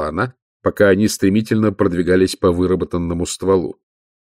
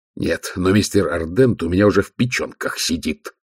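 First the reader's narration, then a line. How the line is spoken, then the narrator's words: Growl. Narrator (Russian): прорычал Ваймс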